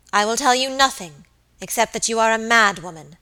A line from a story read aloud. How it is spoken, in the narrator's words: answered Lady Audley in a cold, hard voice